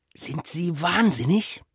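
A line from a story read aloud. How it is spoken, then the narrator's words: Hissed into ear. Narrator (German): der Kriminaldirektor zischte ihm ins Ohr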